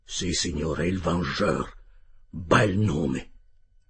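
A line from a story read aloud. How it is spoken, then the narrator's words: Captain murmuring. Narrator (Italian): mormorò il capitano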